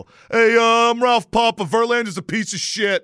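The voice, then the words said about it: Imitated caller character voice. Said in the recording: “he sounds like a McDougal.”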